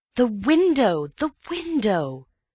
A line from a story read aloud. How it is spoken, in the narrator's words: cried Antony